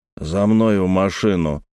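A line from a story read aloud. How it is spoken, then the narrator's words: Muffled stranger's voice. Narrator (Russian): глухо проговорил незнакомец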